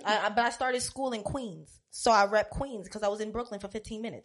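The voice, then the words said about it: Speaks with a regional twang. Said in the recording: “You still got your twang. You still got that.”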